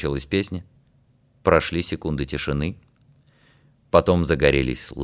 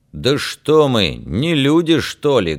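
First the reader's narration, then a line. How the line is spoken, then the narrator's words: Loud question. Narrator (Russian): громко спросил Феликс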